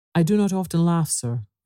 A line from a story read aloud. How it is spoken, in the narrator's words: replied the stranger